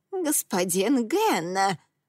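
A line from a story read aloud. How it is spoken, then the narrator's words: Witch exclaiming. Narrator (Russian): воскликнула синяя ведьма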